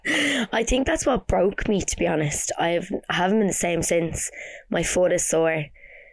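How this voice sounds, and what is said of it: Congested, nasal voice. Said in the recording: “I am a little bit under the weather, as you can tell by my voice. ... Our nasal queen. ... nasally or not.”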